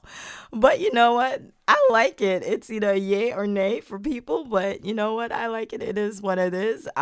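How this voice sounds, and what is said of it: Hoarse, failing voice. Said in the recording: “Mom, what's wrong with your voice? ... I'm losing my voice ... that is not ... It is ... My voice is going through right now.”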